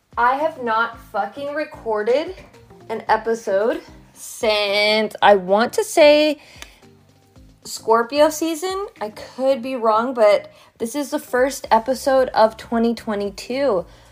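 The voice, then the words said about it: Congested, loud voice. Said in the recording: “I am a little bit congested ... I'm screaming right now”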